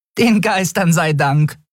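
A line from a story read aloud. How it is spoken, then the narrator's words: Laughing. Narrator (German): lachte Nelen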